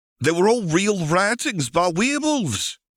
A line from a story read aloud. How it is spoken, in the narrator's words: exclaimed Ignis